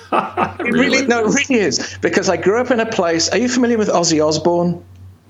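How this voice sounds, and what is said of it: British accent. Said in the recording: “I heard a British accent ... my British accent”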